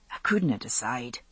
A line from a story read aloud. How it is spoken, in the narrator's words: he said softly